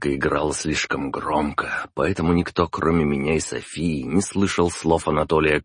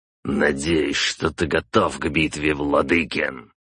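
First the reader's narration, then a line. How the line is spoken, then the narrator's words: Growl. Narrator (Russian): прорычал Калугин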